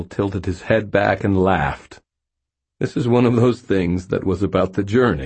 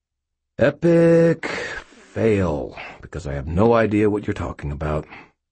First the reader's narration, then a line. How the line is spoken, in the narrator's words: said wearily